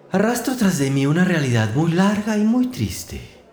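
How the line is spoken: Mouse exclaiming with a sigh. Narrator (Spanish): exclamó el ratón dejando escapar un suspiro

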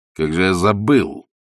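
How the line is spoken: Angry. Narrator (Russian): сказал он сердито

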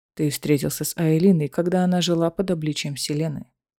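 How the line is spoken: Dry reminder. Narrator (Russian): сухо напомнил ему Рован

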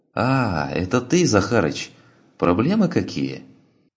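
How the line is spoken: Cheerful voice. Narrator (Russian): Тот ответил все тем же веселым голосом

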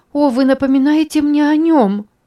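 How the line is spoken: Moaned. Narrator (Russian): простонала

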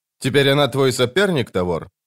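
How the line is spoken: Snorting. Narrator (Russian): Сестра фыркнула

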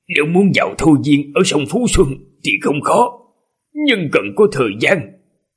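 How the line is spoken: Hoarse voice. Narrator (Vietnamese): Thôi Hoa Sinh giọng khàn khàn nói

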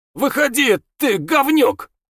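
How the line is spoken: Yelled. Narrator (Russian): Дэви заорал

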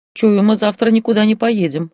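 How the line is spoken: Scoffing snort. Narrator (Russian): хмыкнул Ярик

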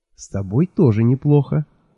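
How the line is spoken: Quiet. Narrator (Russian): тихо сказала Миламари

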